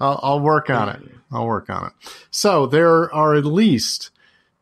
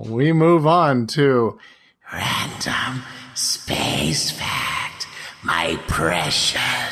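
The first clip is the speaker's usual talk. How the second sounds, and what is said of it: Gollum character voice impression. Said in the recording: “the tone, as he puts it, of Gollum ... if it's a bad impression ... I give that at least a B minus, maybe a B.”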